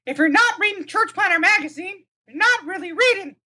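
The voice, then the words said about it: Mickey Mouse cartoon voice impression. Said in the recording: “your best Mickey Mouse impression”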